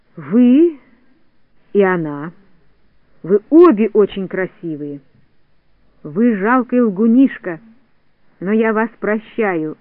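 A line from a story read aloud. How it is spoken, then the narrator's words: Plain. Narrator (Russian): ответила Синеглазка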